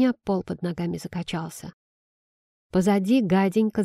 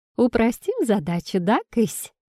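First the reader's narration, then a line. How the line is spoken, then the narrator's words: Cheerful question. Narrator (Russian): весело спросила богиня свою кошку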